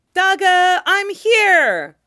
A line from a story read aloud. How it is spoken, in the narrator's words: Luo Fanli shouts in greeting